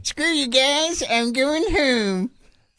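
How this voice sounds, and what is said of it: Cartoon character voice impression. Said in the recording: “You can do South Park impressions ... I can do Cartman a little bit ... Let me hear your Cartman ... Phenomenal”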